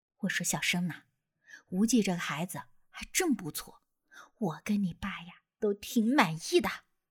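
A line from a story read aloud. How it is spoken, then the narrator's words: Low, cheerful murmur. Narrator (Chinese): 我妈这人呐，向来都是心宽乐观，在我耳边低声说道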